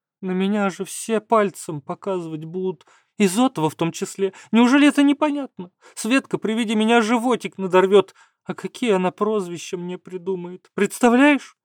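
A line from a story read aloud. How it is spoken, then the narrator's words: Sobbing. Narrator (Russian): Каховская всхлипнула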